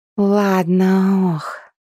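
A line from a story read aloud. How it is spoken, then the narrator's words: Groaning. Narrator (Russian): простонала она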